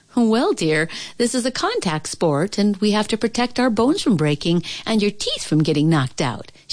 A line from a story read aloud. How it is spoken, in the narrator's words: said cheerfully